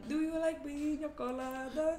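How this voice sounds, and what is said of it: Sung line in Jamaican accent. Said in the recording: “I always sing it in a Jamaican accent.”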